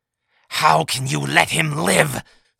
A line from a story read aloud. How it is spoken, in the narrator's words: snarled Taith, her breathing rapidly increasing